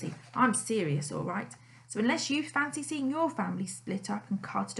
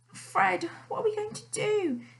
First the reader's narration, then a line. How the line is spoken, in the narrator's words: She wailed